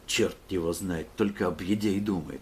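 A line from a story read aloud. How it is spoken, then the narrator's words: Contemptuous grumble. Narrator (Russian): проворчал философ Милкин, делая презрительную гримасу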